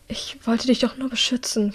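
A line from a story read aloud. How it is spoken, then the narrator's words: Calmer whisper. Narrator (German): flüstert als sie sich ein wenig beruhigt hat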